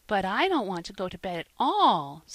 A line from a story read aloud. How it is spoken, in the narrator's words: said the child anxiously